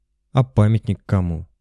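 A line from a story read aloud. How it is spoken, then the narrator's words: Plain question. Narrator (Russian): спросил я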